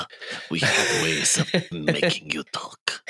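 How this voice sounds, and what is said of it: Weaselly, creepy German-accented villain voice. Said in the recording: “He talks in this way. ... He's got a weird kind of weird accent. ... So it's a little, like, weaselly and a little creepy. ... A little, Igor kind of sound”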